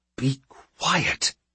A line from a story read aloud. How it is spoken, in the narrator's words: hisses Condry